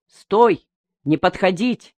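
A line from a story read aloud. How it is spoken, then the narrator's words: Shouting soldier. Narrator (Russian): закричал военный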